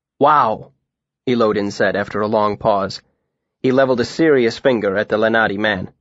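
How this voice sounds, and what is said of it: Usual voice. Nothing is said of it.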